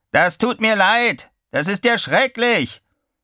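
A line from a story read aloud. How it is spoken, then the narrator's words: Roaring over wind. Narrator (German): brüllte Chuck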